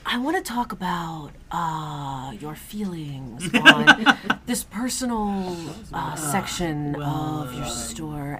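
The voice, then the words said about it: Imitates an NPR radio host voice. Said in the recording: “my NPR impression”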